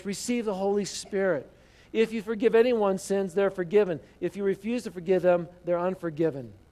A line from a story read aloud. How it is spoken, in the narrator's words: breathed on them and he said